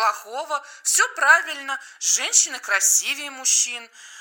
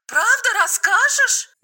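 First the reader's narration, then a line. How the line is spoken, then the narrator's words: Exclaimed. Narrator (Russian): воскликнула Маша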